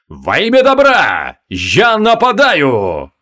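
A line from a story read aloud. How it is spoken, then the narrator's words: Thundering voice. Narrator (Russian): прогремел лорд Гвайдеон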